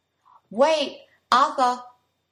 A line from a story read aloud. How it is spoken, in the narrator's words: He cried